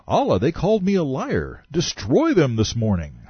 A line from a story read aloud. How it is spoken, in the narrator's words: he cried